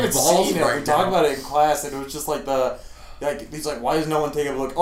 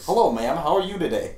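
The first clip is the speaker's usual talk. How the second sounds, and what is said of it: Put-on stereotypical white voice. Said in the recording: “you gotta put on your white voice.”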